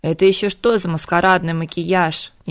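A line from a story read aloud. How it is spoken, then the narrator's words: Displeased grumble. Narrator (Russian): недовольно проворчала Морриган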